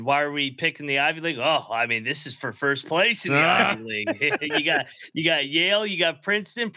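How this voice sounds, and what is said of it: Imitates another person's voice. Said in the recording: “I'll do my best Colby impression.”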